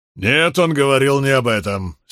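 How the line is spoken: Angry interjection. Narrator (Russian): сердито вмешался Бидвелл

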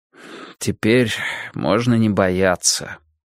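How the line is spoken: Sighed. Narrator (Russian): вздохнул я

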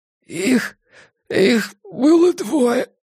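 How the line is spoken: Hoarse strained. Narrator (Russian): хрипло выдавил из себя жандарм

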